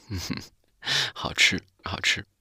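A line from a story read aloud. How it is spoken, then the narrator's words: Laughing through tears. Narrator (Chinese): 小白兔抹了一下眼泪，笑着说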